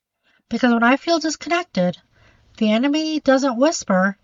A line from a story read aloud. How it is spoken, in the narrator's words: he shouts